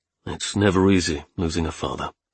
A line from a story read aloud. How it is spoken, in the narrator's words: I said quietly